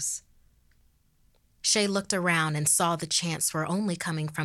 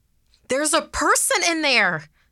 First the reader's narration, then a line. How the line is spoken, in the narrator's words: someone shouted